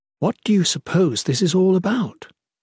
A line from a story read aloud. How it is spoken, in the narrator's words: She asked quietly